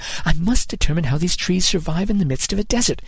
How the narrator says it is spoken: he muttered

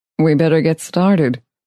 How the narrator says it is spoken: he said

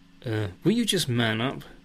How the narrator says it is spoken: snaps Lisa

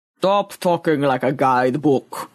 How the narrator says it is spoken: rumbled Boaz

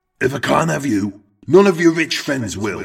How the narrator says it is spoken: heard Eric shout

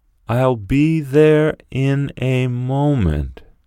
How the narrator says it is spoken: said Gregor slowly and thoughtfully

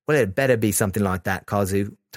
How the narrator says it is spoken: Taichi said

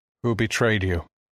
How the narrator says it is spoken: asked sadly

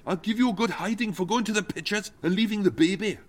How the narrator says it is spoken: Tim snapped

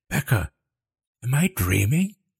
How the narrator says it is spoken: She gasped, shooting upright

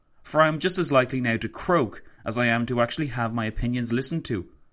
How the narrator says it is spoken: he exclaimed to Roosevelt

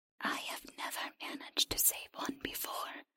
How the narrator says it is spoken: the creature whispered

